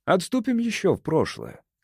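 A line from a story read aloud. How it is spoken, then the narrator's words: Casual tone. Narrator (Russian): сказал ангел непринужденным тоном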